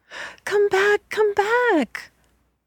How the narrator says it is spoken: cried the turkey

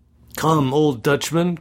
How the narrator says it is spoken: cried one of the young men

